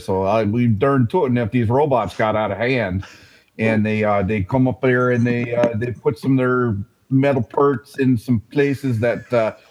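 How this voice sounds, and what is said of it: Exaggerated Minnesota accent. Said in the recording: “You morphed that thing from your Minnesota accent ... he legit does have that accent ... It's pretty spot on for Minnesota.”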